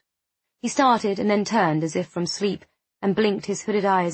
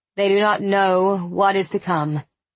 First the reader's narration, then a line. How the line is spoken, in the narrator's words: he said in a slow voice, as if committing the words to memory as he spoke